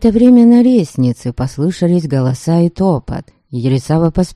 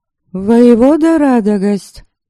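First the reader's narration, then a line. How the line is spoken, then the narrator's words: Sternly called out. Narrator (Russian): строго окрикнула его Ересава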